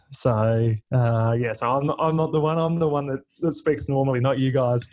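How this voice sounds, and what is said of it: Australian accent. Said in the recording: “all the way from Melbourne, Australia ... You obviously have an accent”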